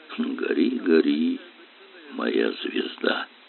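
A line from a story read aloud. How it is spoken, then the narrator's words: Softly sung. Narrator (Russian): Кирилл тихо пропел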